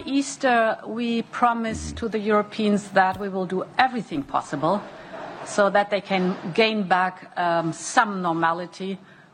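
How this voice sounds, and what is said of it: German accent, soothing. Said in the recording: “in that German accent she has, that just sounds so soothing to me”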